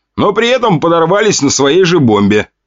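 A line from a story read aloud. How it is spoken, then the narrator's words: Snort. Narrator (Russian): хмыкнул я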